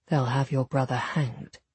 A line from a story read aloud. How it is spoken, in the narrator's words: he said quietly